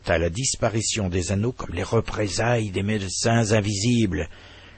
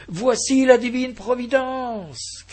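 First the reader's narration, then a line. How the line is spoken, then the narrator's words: Shouting to everyone around. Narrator (French): criait-il à la ronde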